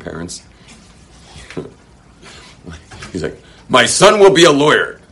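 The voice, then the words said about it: Weak put-on Russian accent. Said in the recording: “Sorry, I'm not good at Russian accents”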